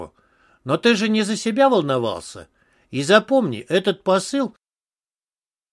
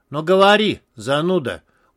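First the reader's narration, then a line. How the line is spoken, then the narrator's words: Tired drawl. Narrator (Russian): устало протянул командир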